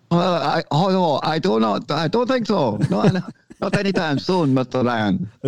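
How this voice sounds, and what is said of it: Put-on Scottish or Japanese accent. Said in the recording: “Japanese doing a Scottish accent or Scottish doing a Japanese accent”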